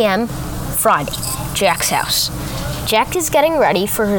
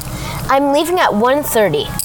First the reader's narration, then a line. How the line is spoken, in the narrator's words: Jack exclaimed